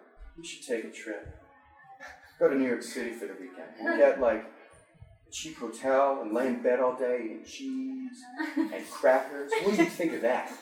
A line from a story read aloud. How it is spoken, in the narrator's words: naked, happy dreamily muttered